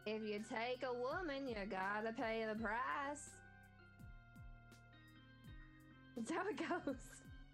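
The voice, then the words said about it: Convincing put-on accent. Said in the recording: “You do a really, really, really good accent”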